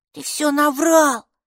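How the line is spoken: Angry hiss. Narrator (Russian): зашипела она

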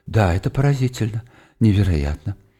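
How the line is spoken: Muttering. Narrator (Russian): бормоча

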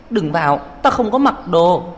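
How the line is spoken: Helpless shout. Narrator (Vietnamese): Tôi bất đắc dĩ hét lên

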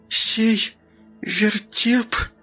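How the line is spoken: Forced out, halting reading. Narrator (Russian): выдавила Ника то, что сумела прочитать

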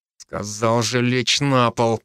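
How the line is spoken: Gritted teeth, suppressed anger. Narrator (Russian): процедил я, давя в себе злость

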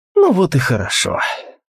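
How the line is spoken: Sigh. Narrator (Russian): вздохнул Алвис

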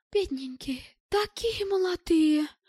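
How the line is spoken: Exclaimed. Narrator (Russian): воскликнула круглоглазая

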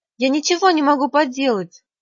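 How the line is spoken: Exclaimed. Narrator (Russian): воскликнула

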